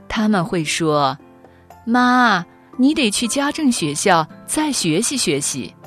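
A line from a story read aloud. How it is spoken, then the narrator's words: Laughing. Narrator (Chinese): 我笑着说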